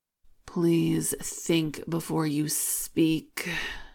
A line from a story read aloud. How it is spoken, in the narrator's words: Akira groans into his hands